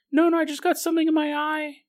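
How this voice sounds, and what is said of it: High-pitched voice. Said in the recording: “I don't know why my voice is so high-pitched all of a sudden.”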